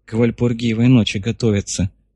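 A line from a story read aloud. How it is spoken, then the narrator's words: Hoarse, unsurprised. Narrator (Russian): прохрипела Колерис девица, ничуть не удивившись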